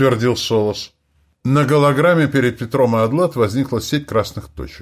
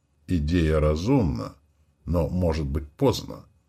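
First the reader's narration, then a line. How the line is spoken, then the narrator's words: Gentle objection. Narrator (Russian): мягко возразил Солос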